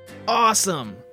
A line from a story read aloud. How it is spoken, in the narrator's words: Hunter yelled